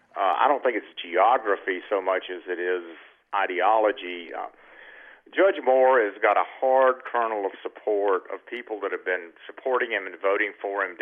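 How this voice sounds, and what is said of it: Noticeable regional American accent. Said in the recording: “you may notice from my accent that I have been in very similar places a good part of my life”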